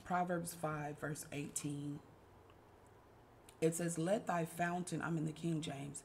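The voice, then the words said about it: Tired, weak voice. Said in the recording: “I sound a little tired. My voice is kind of ... feels a little bit weak today”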